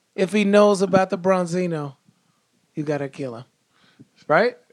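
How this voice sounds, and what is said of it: Godfather-style mobster impersonation. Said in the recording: “Still doing my Godfather impersonation.”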